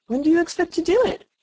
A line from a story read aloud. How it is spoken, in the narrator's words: Alice asked, feeling very much inclined to laugh